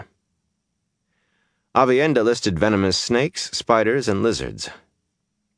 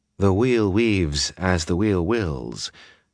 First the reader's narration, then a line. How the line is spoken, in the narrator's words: she had told him, voice coolly calm